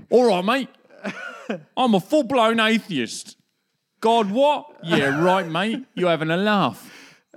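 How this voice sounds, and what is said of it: Put-on accent, disguised voice. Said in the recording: “I'll do another voice so they don't know it's me ... It's the only accent I can do.”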